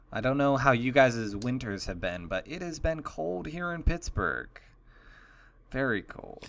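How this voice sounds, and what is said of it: Newscaster voice. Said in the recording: “newscaster voice”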